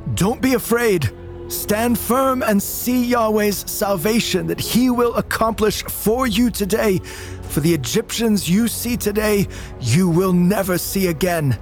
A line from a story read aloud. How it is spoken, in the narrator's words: He shouts to the people